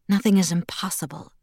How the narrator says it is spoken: Edward murmured, voice velvet soft

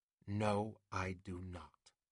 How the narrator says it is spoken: said quietly, though he felt angry

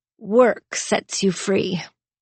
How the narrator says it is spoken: with a really bitter chuckle, he muttered

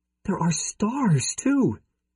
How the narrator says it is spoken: she gasped

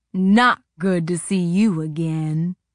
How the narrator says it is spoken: he growled directly to me

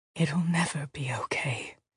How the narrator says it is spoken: the old woman whispered

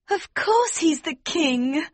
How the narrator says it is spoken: Princess Flavia cried

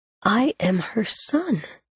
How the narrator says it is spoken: he whispered aloud

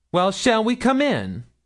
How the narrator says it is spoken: cried Milly, trying a last summons

